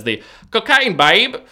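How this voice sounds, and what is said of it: Put-on Australian accent. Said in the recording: “my best Australian accent that I personally can do”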